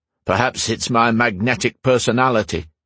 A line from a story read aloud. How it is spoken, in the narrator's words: he blurted out